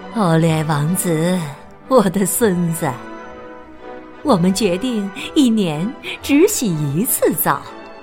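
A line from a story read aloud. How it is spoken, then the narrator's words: Smiling. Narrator (Chinese): 玛格丽特皇太后微笑着对他说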